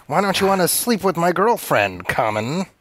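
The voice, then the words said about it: Imitates the Joker character's voice. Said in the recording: “my impression of Jared Leto as the Joker”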